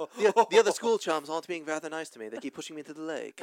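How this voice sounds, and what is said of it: Put-on classy English accent. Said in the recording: “an English accent. Like a really classy English accent.”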